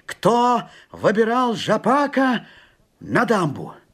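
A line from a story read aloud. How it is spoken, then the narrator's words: Shouting. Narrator (Russian): кто первый так крикнул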